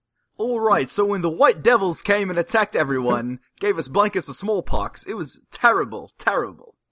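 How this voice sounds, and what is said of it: Put-on Cockney-ish English accent. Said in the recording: “with an English accent ... It was Cockney-ish.”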